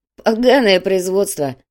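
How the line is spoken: Laughing. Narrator (Russian): рассмеялся Раф

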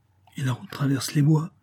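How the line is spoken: Timid, tentative question. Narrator (French): hasarda timidement Flavie

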